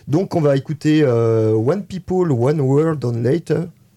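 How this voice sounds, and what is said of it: English with a Spanish accent. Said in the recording (French): “Accent espagnol, très bien. ... c'est magnifique accent espagnol.”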